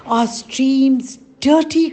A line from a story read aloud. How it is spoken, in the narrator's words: cried the elders